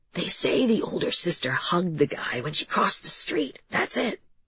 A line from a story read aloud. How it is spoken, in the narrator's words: he leaned forward and whispered